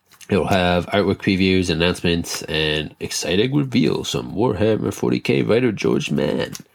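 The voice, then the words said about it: Put-on reading voice. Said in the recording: “put on a voice anytime I start reading directly from my article”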